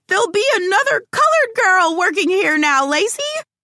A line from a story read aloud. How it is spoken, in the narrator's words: one of the directors could not take it anymore, and finally she blurted out